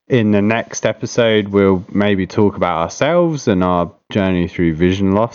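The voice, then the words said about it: British accent. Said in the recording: “that British accent”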